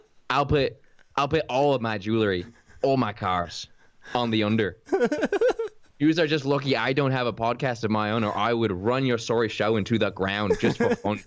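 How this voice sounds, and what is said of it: Weak put-on Irish accent impression. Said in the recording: “Your McGregor is so bad that it's almost good, your impression ... You can get an Irish accent on some of those words ... some good Conor McGregor talk”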